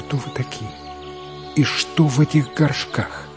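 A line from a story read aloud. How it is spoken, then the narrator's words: Quiet question. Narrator (Russian): тихо спросила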